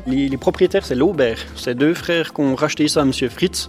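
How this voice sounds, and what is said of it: Charming French accent. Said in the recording (French): “vous avez un charmant accent. ... Français.”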